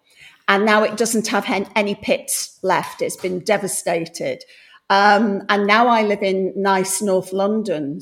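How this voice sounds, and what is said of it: English Midlands accent, somewhat northern. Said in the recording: “I'm very common. So if my accent puts people off... I'm a bit, you know, sort of northern. Well, actually, I'm from a place in the Midlands”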